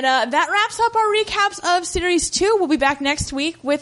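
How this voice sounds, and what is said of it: Usual voice. Nothing is said of it.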